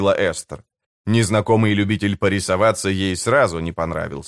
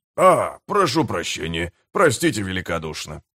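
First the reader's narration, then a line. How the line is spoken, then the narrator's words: Mumbling stranger. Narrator (Russian): забормотал незнакомец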